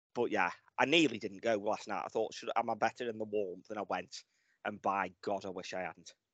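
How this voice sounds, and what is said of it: Sick, under-the-weather voice. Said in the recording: “I have been laid up since Sunday, and you can probably hear in my voice I'm still a bit laid up”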